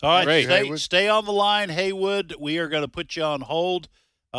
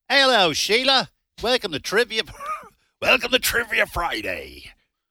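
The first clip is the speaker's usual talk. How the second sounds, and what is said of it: Put-on pirate accent. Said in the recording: “I always wind up with a pirate accent ... it sounded like Australian to me”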